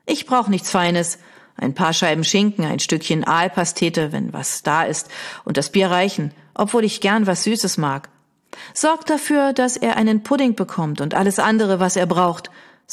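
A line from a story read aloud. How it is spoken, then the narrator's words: Plain. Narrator (German): sagte Beatrice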